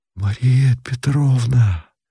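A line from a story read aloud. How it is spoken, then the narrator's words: Quiet, beckoning. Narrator (Russian): тихо и зовуще сказал Павел Георгиевич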